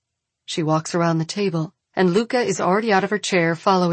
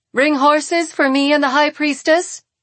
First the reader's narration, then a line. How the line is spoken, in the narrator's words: she says loudly